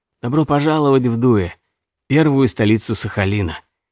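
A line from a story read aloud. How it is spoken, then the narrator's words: Calm, smiling old man. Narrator (Russian): старик улыбнулся и спокойно сказал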